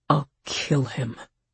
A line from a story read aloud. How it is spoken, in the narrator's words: he said, his voice deadly quiet